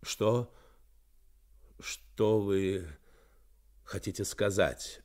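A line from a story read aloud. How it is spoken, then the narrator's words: Confused mutter. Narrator (Russian): пробормотал он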